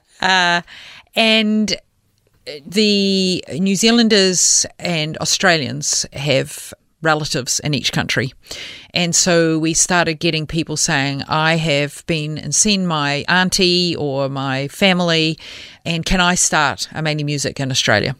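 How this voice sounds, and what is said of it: New Zealand accent. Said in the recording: “I am a New Zealander. ... we might have picked that up on the accent.”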